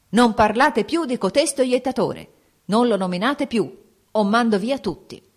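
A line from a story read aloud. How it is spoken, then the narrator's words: Angry shout. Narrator (Italian): gridò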